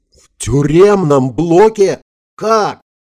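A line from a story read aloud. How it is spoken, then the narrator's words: Yelling. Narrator (Russian): заорал министр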